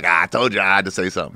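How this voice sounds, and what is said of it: Imitates another person's voice. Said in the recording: “That's actually a pretty good impersonation of Godfrey, too, actually. Dude, it's not bad.”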